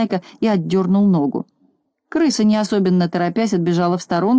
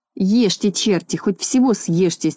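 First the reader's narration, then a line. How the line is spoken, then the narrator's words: Angry muttering. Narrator (Russian): сердито бормотал он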